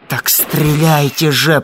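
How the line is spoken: Hissed. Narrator (Russian): прошипел Коля солдату

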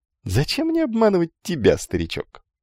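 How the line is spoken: Beggar laughing. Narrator (Russian): рассмеялся нищий

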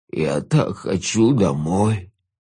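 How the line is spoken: Whimpering. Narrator (Russian): проскулил он

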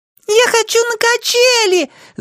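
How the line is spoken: Shouted. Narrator (Russian): закричала Джанель

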